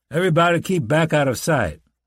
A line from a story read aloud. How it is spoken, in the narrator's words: the ranger called out